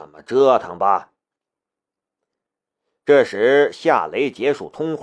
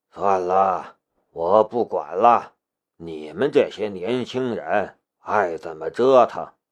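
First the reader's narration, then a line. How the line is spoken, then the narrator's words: Sighing. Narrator (Chinese): 申屠人叹了一口气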